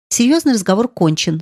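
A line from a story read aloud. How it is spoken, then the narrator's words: Plain. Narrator (Russian): сказал отец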